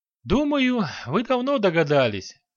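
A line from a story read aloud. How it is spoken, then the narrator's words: Sighing. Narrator (Russian): вздохнула Дороти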